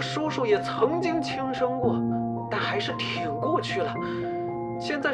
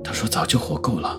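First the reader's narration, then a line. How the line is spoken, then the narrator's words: Low pained voice. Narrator (Chinese): 叶问低痛般的压低了声音说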